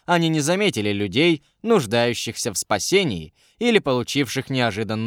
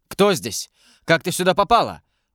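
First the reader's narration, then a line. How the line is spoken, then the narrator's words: Startled exclamation. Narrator (Russian): воскликнул Валера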